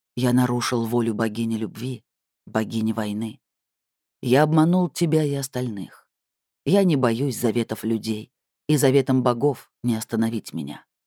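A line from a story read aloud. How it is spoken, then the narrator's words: Low, frightening, alien voice. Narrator (Russian): сказал голосом более чуждым, чем когда он притворялся кем-то другим, сказал низким, страшным голосом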